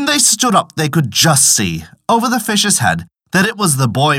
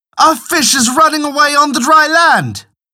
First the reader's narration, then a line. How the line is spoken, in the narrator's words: cried out